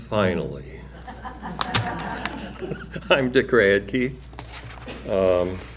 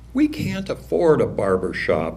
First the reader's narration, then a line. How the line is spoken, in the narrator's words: she says